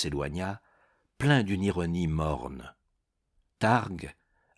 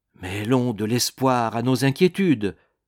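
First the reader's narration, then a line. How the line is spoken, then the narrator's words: Exclaimed. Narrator (French): s'exclama-t-il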